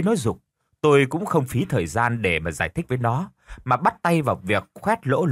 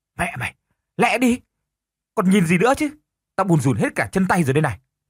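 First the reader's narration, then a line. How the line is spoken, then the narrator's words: Sharp shout. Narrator (Vietnamese): Nó lập tức quát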